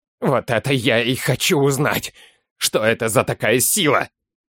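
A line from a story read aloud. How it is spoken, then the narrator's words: Growled. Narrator (Russian): Прорычал Серый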